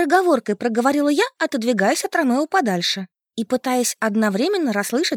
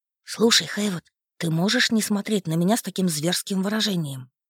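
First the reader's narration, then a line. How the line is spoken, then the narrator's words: Impatient whisper. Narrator (Russian): Потеряв терпение, шепотом спросила я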